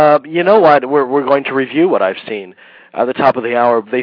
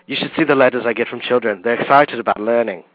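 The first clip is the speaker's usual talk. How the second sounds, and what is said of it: Ralph Fiennes impression. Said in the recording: “my Ralph Fiennes impression ... Sounded a little bit like Hannibal Lecter”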